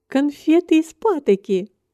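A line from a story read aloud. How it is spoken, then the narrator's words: Laughing, slightly disapproving. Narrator (Russian): повторила миссис Фарли, смеясь, но с оттенком неодобрения в голосе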